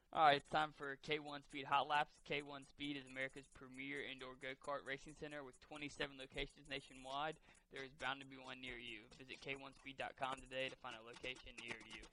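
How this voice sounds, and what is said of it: Raspy, loud radio voice. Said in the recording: “radio voice. It's real raspy. It's kind of loud, but not in a bad way.”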